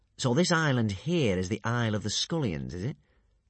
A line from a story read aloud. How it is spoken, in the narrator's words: purred Alvin gleefully